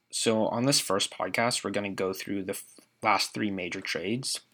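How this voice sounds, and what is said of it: Stuffy, congested voice. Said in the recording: “my voice is a little stuffy because I've had a cold for the last couple days”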